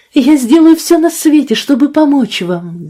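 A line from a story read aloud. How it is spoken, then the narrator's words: Fervent exclamation. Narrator (Russian): горячо воскликнула Фиби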